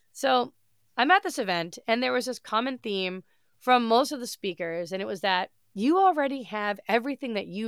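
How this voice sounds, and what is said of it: Congested, nasal head-cold voice. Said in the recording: “just a massive head cold. So, it sounds like I'm holding my nose”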